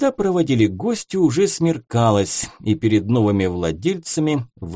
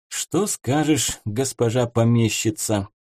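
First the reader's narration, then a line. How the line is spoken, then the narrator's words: Quiet question. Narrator (Russian): тихонько спросил Дмитрий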